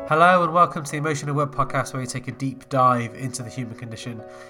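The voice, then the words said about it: Nasal, congested voice. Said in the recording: “I have a bit of a cold with me, so I'm a little bit nasal, so apologies for sounding a bit bunged up”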